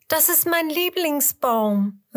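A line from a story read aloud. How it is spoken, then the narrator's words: Call. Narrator (German): ruft sie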